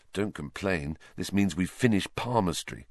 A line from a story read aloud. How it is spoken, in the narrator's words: Harry muttered back